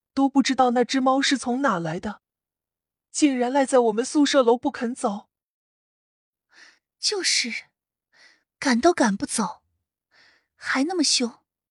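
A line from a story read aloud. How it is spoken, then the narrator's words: Girl tearfully complaining. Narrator (Chinese): 有一名女生哭诉道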